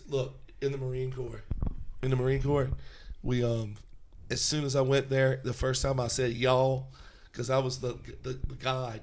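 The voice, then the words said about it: Mild Southern drawl. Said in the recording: “It's not a severe southern drawl like someone from Alabama.”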